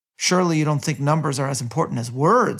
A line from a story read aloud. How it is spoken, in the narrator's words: Azaz shout from the distance